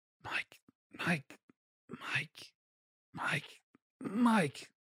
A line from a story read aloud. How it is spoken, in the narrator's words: He continues to whisper